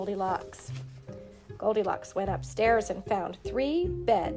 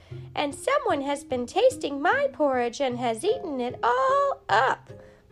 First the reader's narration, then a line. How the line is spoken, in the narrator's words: cried the baby bear in his wee little voice